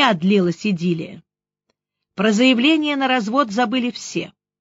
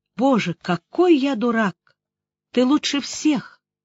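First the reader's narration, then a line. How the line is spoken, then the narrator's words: Moved, emotional. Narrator (Russian): тот, даже расчувствовавшись, сказал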